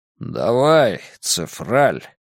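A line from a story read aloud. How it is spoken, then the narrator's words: Dragon grumbling. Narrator (Russian): проворчал дракон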